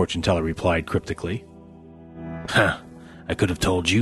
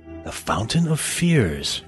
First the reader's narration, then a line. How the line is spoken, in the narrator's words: she breathed